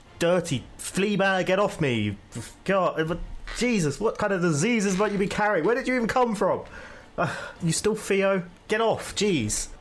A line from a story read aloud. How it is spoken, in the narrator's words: I'm just yelling at it like